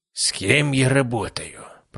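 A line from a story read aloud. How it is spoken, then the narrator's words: Grumble. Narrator (Russian): пробурчал Герасимов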